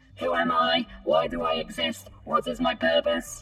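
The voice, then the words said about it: Screamed robotic voice. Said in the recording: “I scream in a robot voice.”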